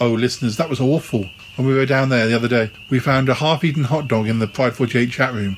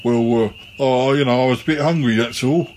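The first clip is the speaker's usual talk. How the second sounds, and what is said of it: Imitates another person's voice. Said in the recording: “that was a good impression”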